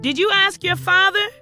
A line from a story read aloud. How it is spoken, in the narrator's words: she shouted back